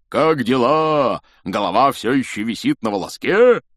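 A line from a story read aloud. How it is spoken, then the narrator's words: Loud laugh. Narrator (Russian): Он громко хохотнул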